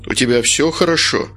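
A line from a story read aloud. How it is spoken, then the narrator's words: Plain question. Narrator (Russian): спросил санитар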